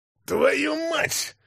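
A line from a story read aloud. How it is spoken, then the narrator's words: Shouting, injured man. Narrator (Russian): кричал человек с залитым кровью лицом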